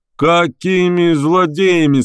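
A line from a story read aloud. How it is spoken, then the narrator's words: Menacing question. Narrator (Russian): спросил грозно Пугачев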